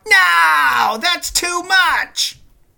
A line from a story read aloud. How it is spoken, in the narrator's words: Goldust screams